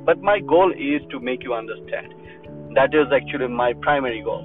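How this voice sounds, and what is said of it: Non-native English accent. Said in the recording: “my English is not my mother language, so I have accent”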